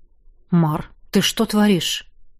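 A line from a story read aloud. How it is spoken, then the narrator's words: Quiet question. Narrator (Russian): тихо спросил Нерт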